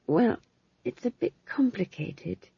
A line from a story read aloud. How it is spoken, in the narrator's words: said McGrath weakly